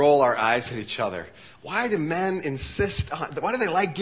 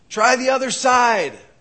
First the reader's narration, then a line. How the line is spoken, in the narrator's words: the voice yells back